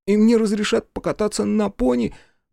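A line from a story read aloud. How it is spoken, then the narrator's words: Sobbing. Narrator (Russian): Мэтью Перкинс, всхлипывая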